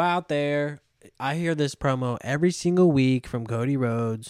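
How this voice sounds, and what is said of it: Usual voice. Nothing is said of it.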